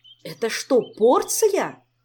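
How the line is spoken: Indignant cry. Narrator (Russian): возмущенно вскричал Кантор

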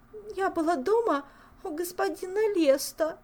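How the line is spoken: Girl sobbing. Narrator (Russian): всхлипнула девушка

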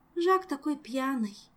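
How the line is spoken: Sigh. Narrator (Russian): вздохнула Тереза

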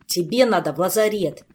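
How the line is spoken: Snapped. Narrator (Russian): огрызнулся Кантор

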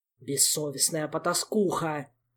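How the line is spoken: Father snarling. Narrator (Russian): рычал папа

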